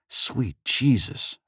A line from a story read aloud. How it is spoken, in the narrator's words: Faisal whispered